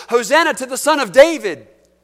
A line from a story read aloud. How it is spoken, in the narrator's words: the children were shouting in the temple